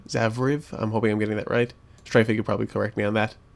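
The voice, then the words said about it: Strained, fading voice. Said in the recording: “my voice is going ... my voice seems to be going”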